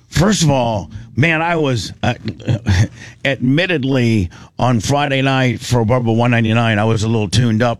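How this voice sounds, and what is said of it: Hoarse, strained voice. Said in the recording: “I can't believe how much I'm losing my voice.”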